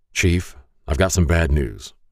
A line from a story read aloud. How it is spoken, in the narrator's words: I said